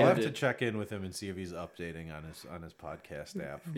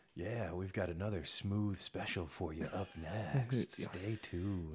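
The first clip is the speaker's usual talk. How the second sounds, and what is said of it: Smooth late-night radio DJ voice. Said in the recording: “1970s porn star approach ... that's my morning DJ voice ... I think that's an evening DJ, like the overnight guy”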